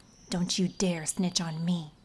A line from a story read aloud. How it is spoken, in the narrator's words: she whispered